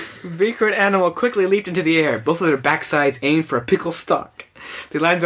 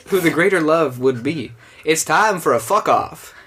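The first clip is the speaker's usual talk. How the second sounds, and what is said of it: Put-on character accent. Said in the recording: “Her accent's different.”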